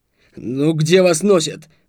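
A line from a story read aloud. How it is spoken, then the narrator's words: Yelling. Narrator (Russian): заорал Блантек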